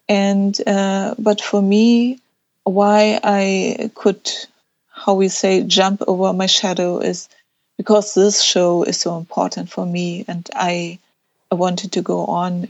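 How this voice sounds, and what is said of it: Speaks English with an accent. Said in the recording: “I always feel a little bit odd because of my accent.”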